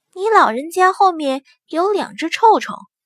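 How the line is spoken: Lowered voice. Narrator (Chinese): 压低了声音说

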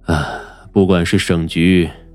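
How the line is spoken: Sighing. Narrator (Chinese): 疯子…叹了口气

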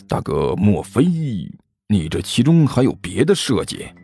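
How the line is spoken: Lowered voice, asking. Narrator (Chinese): 压低声音问道

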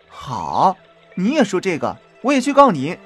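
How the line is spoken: Laughing. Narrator (Chinese): 宝玉 笑着说

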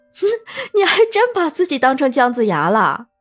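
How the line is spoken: Hearty laughter. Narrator (Chinese): 文玉哥听过，哈哈大笑

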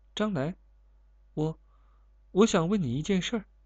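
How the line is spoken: Quiet, hesitant. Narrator (Chinese): 卷小 低声说

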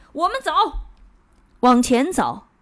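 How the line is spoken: Loud, in Danish. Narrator (Chinese): 他还用丹麦语大声地补充了一句

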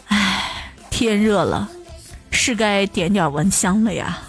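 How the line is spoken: Soft sigh. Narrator (Chinese): 墨汁……轻叹道

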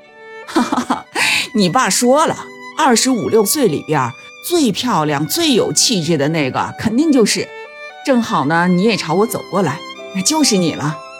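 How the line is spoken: Chuckling. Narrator (Chinese): 来人呵呵一笑说

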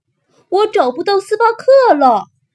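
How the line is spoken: Loud shout. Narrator (Chinese): 他大声喊

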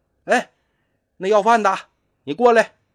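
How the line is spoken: Sudden call. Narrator (Chinese): 忽然就听见有个人喊

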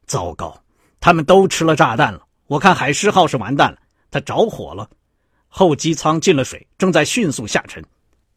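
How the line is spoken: Hoarse, shaken. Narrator (Chinese): 塔利……脸色苍白，沙哑着嗓子说

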